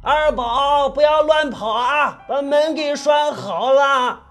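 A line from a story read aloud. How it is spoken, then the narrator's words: Shouting uncle. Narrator (Chinese): 表舅喊着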